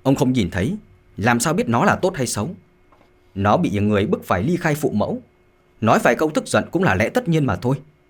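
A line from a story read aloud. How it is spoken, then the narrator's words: Calm, without anger. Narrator (Vietnamese): Lục Tiệm không tức giận mà nói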